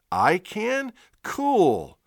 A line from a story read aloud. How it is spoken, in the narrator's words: Ginny shouts